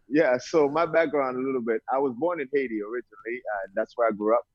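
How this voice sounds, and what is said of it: Slight Brooklyn accent. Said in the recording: “I hear a little accent, sounds like Brooklyn”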